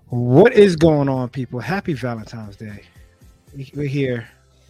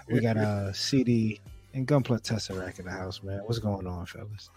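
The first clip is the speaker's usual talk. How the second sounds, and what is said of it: DJ-style announcer voice. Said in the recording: “try to do my DJ voice”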